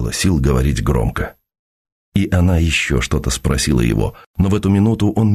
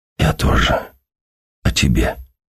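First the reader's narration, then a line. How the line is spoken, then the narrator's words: Whisper. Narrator (Russian): прошептал он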